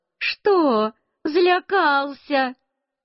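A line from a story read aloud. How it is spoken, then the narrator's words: Laughing. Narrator (Russian): Тетя Одарка тоже засмеялась и сказала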